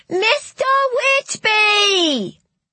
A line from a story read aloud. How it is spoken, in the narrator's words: screeched Polly